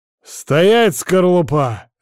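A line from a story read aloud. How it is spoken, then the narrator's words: Foreman barking. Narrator (Russian): рявкнул бригадир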